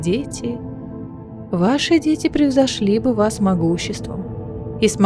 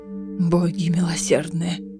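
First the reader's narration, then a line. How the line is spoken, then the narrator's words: Breathed out. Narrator (Russian): выдохнул Фенрис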